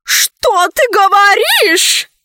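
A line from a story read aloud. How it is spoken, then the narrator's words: Grandmother shouting. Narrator (Russian): закричала бабушка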